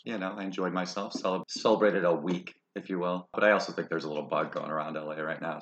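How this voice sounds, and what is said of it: Slightly hoarse voice. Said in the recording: “my voice is a little hoarse.”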